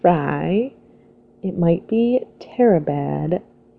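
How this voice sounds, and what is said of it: Usual voice. Nothing is said of it.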